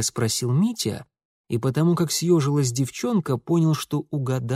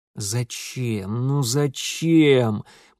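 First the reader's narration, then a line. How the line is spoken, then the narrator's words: Almost moaning. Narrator (Russian): почти простонав Митя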